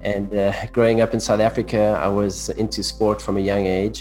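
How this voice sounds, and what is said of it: South African accent. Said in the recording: “I grew up in South Africa... That's my funny accent that you hear.”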